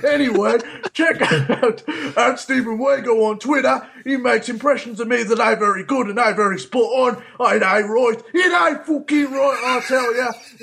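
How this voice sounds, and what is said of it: Impression of a co-host. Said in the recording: “Another great Sean impression.”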